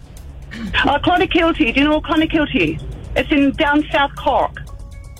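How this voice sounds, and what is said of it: Irish accent. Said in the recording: “You're from Scotland. ... No, Ireland. ... Do you think she's putting on an accent?”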